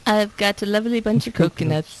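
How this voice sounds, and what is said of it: Put-on English accent. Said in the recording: “You must do that in an English accent, too.”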